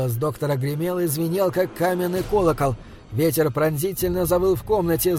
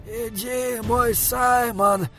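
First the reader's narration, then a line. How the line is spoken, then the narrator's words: Breathed, clearly audible. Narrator (Russian): выдохнул он, и голос его отчетливо доносился сквозь пламя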